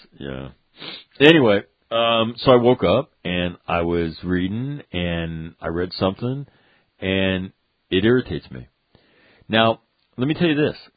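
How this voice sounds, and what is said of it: Sick, congested voice. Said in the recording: “I'm getting sick. I think I'm getting a sinus infection. You should be able to hear it in my voice.”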